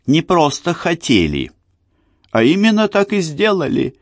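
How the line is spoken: Giggling, female. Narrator (Russian): она снова хихикнула

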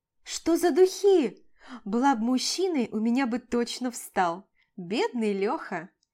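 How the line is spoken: Giggling woman. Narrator (Russian): Хихикает она

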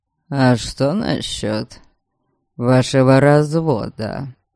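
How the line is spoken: Forced calm, strained question. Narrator (Russian): Нарочито спокойно осведомился он, хотя я видела, каких трудов ему стоил этот равнодушный тон

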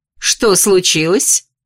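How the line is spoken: Irritated question. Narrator (Russian): переспросила декан раздраженно

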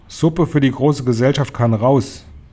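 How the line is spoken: Calling out. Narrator (German): rief

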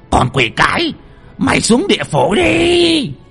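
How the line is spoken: Old man hissing. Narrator (Vietnamese): lão rít lên

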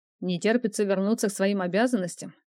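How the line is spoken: Knowing chuckle, man. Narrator (Russian): Понимающе хмыкнул мужчина

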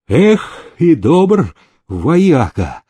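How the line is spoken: Sighing. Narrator (Russian): вздохнул Пугачев

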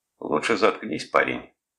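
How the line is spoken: Rough interruption. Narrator (Russian): грубо оборвал его Спинелли

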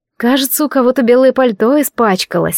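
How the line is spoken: Snorted. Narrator (Russian): фыркнула я

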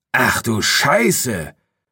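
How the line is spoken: Hissed in ear. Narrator (German): zischte Hartmann in meinem Ohr

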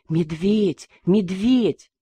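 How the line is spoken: Whispering with blue lips. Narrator (Russian): посиневшими губами шептать

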